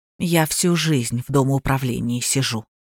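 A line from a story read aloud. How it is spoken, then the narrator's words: Soft. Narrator (Russian): мягко сказала она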